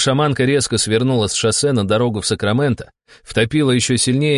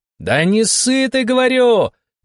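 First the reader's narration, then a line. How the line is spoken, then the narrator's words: Woman shouting. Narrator (Russian): крикнула она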